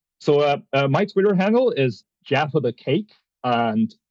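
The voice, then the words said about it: Put-on American accent. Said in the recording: “Try with an American accent ... great accent”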